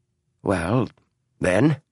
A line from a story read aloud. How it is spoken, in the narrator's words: Adams said in an only slightly shaky voice